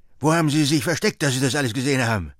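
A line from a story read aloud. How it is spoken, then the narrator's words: Called out. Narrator (German): rief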